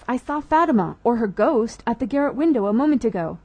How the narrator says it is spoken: cried Max

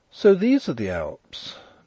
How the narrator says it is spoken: Nellie exclaimed

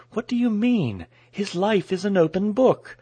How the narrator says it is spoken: she exclaimed a little stiffly

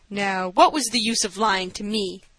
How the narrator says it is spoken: asked the doctor, with a laugh which dispelled the rudeness

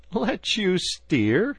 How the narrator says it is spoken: replied the bargewoman, laughing

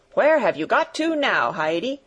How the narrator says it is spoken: he called out somewhat crossly

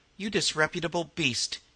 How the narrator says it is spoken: he said

